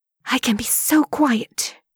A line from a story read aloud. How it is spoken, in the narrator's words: she whispers